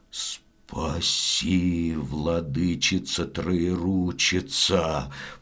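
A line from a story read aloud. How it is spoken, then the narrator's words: Stammering old man's mutter. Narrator (Russian): пробормотал, запинаясь, дед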